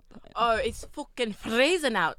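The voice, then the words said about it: Put-on Scottish or Irish accent. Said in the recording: “accents, I am really liking, I don't know if it's a Scottish accent or if it's like an Irish accent”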